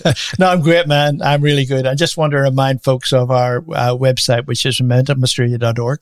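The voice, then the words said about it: Unusual accent. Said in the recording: “with a strange accent”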